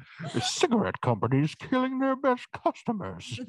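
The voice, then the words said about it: Bad Bane character impression. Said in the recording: “the Bane impression... It's not that good... bad Bane impression”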